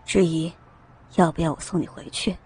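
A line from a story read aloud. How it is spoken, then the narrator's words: Gentle magnetic voice. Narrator (Chinese): 身后陡然响起带着温柔声调的磁性嗓音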